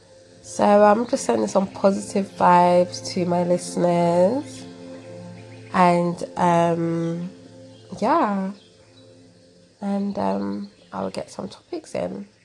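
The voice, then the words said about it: British accent. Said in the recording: “I love your accent. British? ... Sounds so good.”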